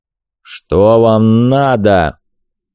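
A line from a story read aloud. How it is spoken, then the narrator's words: Muffled rumbling voice. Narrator (Russian): Глухо громыхнул чей-то голос, такое ощущение, что прямо из-под земли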